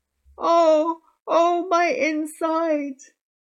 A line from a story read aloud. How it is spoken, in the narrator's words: Ereshkigal was moaning